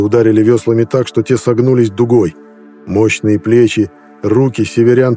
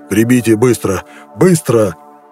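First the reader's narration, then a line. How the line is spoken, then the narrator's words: Hoarse command. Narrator (Russian): хрипло приказал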